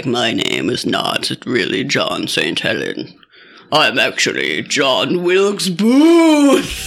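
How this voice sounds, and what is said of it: Old-timey dramatic character voice. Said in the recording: “What voice is that? ... Is that Dracula? ... Old-timey dramatic voice.”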